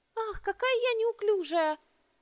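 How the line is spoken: Desperate exclamation, young girl. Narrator (Russian): В отчаянии воскликнула младшенькая

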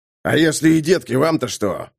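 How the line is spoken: Growling. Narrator (Russian): рыкнул лейтенант Шаттерхенд

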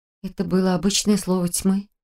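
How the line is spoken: Muttering. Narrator (Russian): пробормотала я

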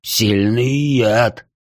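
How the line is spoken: Hiss. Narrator (Russian): прошипел Пламень

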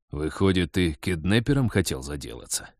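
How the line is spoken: Insinuating question. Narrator (Russian): вкрадчиво поинтересовался Вадим

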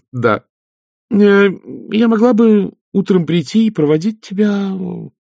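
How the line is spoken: Hesitant. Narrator (Russian): сказала Агнесса неуверенно

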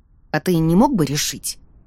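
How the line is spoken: Muttered. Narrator (Russian): пробормотала я

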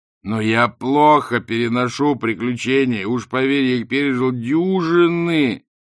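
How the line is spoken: Wailing. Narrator (Russian): взвыл Ринсвинд

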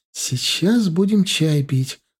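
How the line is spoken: Joyful declaration. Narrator (Russian): радостно заявила она

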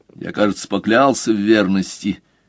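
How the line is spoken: Grumbling. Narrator (Russian): пробурчал Мазур

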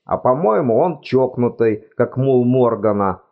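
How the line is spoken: Exclaiming. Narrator (Russian): воскликнул Клэнси

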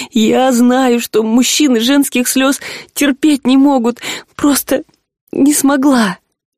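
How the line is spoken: On the verge of tears. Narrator (Russian): Рыска чуть снова не разрыдалась

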